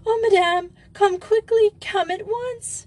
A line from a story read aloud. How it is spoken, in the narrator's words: a scared, horrified Bette and Brunhilde, who both exclaimed